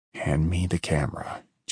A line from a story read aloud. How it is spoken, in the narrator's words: Jim muttered